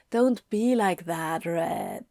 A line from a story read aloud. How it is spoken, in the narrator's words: Anthony purred